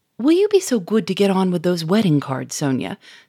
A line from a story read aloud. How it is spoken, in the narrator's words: said Germain sharply